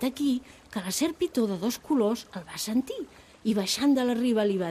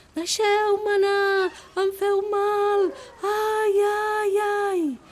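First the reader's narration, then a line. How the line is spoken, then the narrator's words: Small elephant shouting. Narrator (Catalan): el petit elefant començà a cridar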